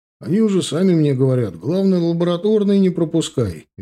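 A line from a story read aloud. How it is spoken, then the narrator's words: Cheerful telling. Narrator (Russian): весело рассказывал Аиша Марат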